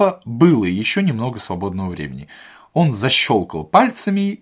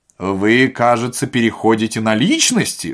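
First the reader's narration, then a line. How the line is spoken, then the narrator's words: Cold remark. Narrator (Russian): заметил Остап холодно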